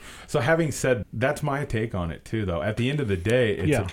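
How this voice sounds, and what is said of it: Usual voice. Nothing is said of it.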